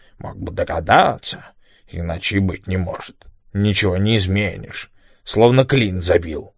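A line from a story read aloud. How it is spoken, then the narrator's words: Angry mutter. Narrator (Russian): Том со злобой бормотал под нос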